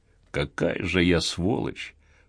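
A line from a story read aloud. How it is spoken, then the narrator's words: Muttered. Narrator (Russian): пробормотал Гарри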